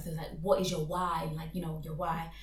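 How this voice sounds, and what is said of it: Slips into an American accent. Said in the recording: “I just always seem to like go into American accent ... See, there's that American accent again.”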